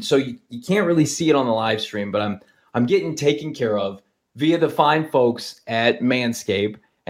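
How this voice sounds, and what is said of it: Hoarse, fading voice. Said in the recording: “I'm somehow losing my voice mid podcast”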